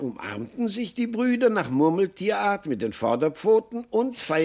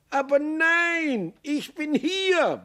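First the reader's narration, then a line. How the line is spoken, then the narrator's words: Roared. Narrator (German): brüllte Maxl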